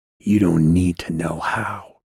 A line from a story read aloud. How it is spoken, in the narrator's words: he said in a whisper